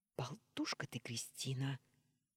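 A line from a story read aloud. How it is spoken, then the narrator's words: Gruff mutter. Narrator (Russian): буркнул Орлов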